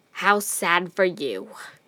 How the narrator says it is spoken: he hissed

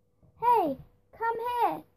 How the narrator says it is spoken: yelled

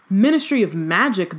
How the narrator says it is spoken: bellowed Uncle Vernon

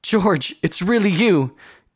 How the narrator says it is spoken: Callie cried

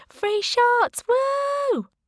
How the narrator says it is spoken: shouted

